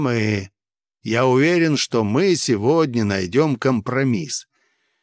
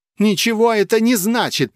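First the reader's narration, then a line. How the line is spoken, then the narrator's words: Attempted snap. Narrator (Russian): попыталась огрызнуться Пелагея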